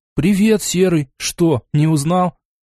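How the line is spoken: Smiling exclamation. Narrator (Russian): улыбнулся, воскликнув

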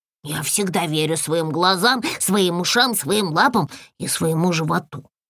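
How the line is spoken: Grumbled mutter. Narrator (Russian): буркнула брякля

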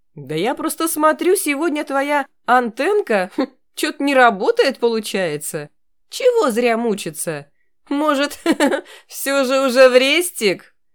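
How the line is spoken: Loud laughter. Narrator (Russian): Громко рассмеялся Петров

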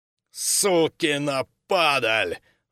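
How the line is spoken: Furious roar. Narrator (Russian): взревел Синицын

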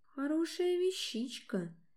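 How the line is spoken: Soft voice. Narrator (Russian): проговорил он мягким голосом

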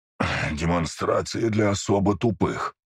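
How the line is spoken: Breathed out. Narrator (Russian): выдохнул оживший колдун

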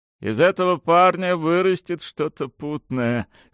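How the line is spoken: Laughing. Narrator (Russian): смеялся он

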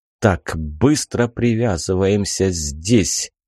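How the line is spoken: Whisper. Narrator (Russian): прошептал я

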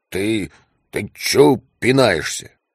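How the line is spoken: Sleepy displeased grumble. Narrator (Russian): недовольно пробурчал сонный Мартин

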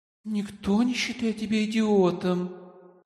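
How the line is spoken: Tender coo. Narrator (Russian): ласково проворковала Лайда

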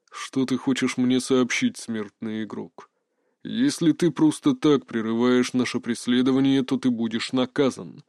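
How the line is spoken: Indifferent. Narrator (Russian): обратился он ко мне равнодушным голосом

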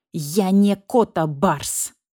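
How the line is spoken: Hissed. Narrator (Russian): прошипел барсукот

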